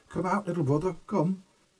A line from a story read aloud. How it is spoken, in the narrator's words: cried